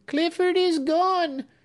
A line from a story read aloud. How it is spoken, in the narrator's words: she cried